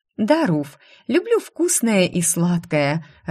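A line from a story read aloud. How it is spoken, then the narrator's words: Laughing. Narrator (Russian): рассмеялась я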